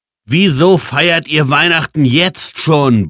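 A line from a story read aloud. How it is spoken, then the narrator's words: Bellowed. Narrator (German): brüllte Jan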